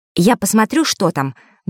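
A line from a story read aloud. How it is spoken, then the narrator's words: Said quickly. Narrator (Russian): быстро сказала Диана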